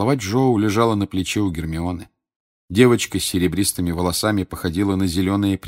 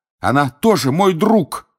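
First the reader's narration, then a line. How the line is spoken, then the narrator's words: Shouting. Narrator (Russian): кричал Гарри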